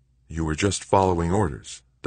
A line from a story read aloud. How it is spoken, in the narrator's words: Doug muttered